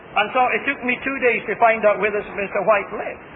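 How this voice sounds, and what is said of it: Scottish accent. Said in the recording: “my Scotch accent”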